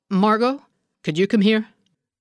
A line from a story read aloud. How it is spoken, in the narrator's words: An unfamiliar strain in his voice clipped the rise of his inflection, so the question sounded like a command